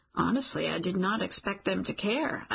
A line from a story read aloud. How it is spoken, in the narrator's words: say, we both chuckle